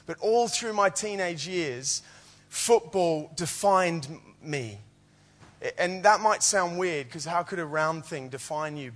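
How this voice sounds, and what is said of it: Slight Australian accent. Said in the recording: “a little twang in my accent ... I'm from Australia”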